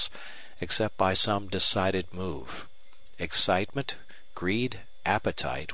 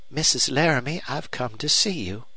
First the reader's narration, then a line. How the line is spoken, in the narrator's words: said Miss Longstreth cheerfully